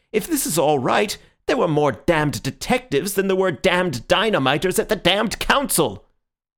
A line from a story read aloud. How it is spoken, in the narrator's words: he cried out